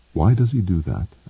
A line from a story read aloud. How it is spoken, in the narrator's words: asked Ender quietly